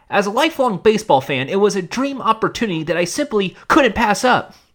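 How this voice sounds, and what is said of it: Imitates another person's voice. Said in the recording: “I'm going to try my best to do my best Scott impression for this.”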